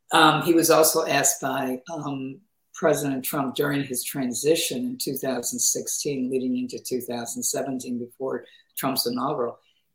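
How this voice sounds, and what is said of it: Hoarse, strained voice. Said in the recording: “pardon me because I'm losing my voice.”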